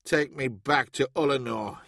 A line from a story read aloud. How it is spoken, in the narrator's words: he grumbled